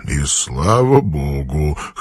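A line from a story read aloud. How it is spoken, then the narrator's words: Quiet chuckle. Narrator (Russian): хохотнул он про себя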